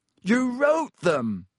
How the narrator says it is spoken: Harry shouted

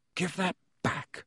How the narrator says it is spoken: said Harry quietly

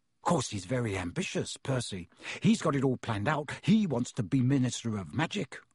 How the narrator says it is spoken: Ron told Harry and Hermione in an undertone

